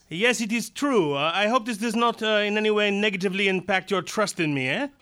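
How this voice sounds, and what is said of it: Belgian French-accented character voice. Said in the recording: “I am Belgian, can't you tell from my perfect accent?”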